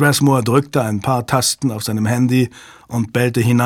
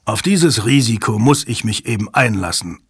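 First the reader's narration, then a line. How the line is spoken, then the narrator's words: Plain. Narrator (German): sagte Strathmore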